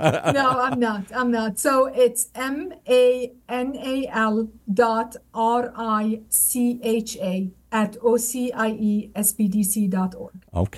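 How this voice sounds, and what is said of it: Lebanese-accented English. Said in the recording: “I love your accent. You clearly are a global person here. I don't know where that accent is from ... I'm originally Lebanese”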